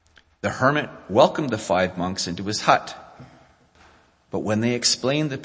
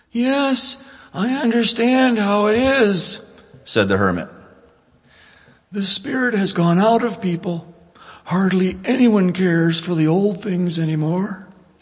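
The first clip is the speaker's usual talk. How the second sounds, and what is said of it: Hermit character voice. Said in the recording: “do my best hermit voice.”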